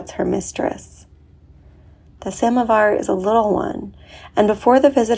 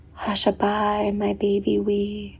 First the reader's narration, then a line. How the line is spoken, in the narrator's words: she murmurs